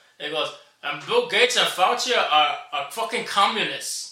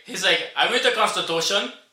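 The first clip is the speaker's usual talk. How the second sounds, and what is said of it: Put-on Cuban accent. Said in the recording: “I'm trying to do like a Cuban accent. Scarface.”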